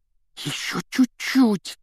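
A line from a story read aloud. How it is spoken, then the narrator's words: Breathed out. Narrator (Russian): выдохнул Рон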